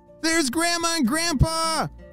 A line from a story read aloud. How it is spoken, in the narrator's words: shouted Ellie